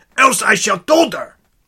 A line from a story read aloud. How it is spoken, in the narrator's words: said angrily